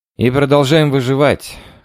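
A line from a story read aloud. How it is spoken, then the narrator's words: Snorting chuckle. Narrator (Russian): хмыкнул Ярев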